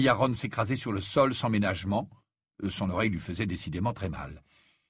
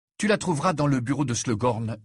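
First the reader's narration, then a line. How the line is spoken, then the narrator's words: Confident. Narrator (French): dit Harry d'un ton assuré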